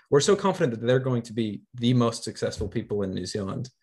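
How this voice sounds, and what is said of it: American accent. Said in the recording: “guess from my accent, I'm I'm from the states originally”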